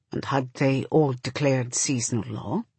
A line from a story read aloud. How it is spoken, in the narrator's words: Shafa says, in that very quiet voice he uses when he knows the answer to a question already, and only wants to hear you say it yourself